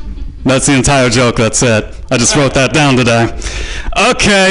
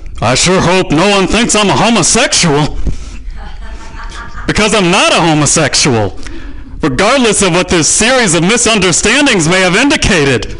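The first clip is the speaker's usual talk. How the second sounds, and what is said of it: 90s sitcom guy character voice. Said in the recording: “my impression of every guy on every 90s sitcom”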